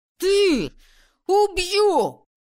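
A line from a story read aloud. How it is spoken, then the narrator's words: Enraged roar. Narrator (Russian): взревел Макс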